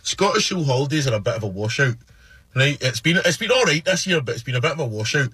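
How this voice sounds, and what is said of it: Scottish accent. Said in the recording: “the cute accent ... speak with a Scottish accent”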